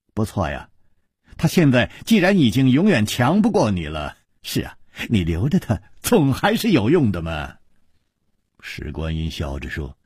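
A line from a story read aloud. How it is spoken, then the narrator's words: Smiling. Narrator (Chinese): 楚留香微笑着说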